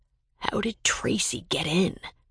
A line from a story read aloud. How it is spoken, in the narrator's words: whispered